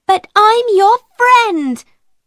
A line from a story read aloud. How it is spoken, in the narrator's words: cried Ermengarde